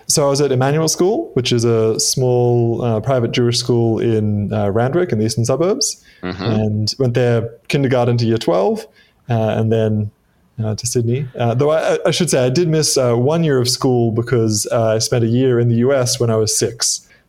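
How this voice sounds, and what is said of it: Australian accent with slight American twang. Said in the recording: “my accent is not as Australian as you might expect ... There's a little twang there ... picked it up in the Midwest”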